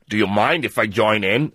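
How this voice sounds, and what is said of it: Imitates another person's voice, poor accent. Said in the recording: “It's not a very good accent.”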